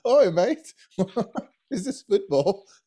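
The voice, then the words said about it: Put-on English accent. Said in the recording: “you just start talking with an English accent.”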